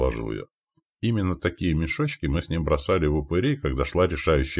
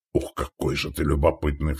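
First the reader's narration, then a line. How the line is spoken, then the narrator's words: Snort. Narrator (Russian): фыркнул Стоян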